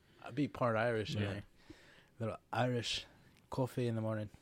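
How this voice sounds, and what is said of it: Put-on Irish accent. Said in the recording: “That wasn't bad. That wasn't a bad accent. I liked it.”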